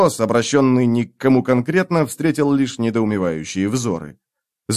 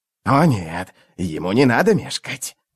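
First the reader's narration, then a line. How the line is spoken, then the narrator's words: Whispering. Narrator (Russian): прошептал Искарал прыщ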